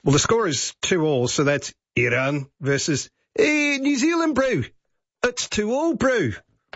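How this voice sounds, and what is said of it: Put-on New Zealand accent. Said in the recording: “I will attempt the accents of both countries before I give you the score”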